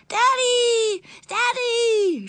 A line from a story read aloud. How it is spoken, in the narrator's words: shrieked